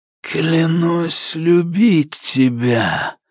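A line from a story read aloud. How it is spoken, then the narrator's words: Hoarse, mocking voice. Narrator (Russian): раздался из его глотки сиплый издевательский голос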